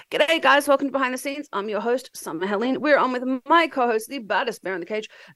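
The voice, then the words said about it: Stuffy congested froggy voice. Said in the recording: “My nose is so stuffed... I sound a little bit like, I don't know if I'm on crack or if I sound like a frog.”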